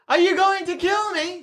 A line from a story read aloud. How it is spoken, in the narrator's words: She yells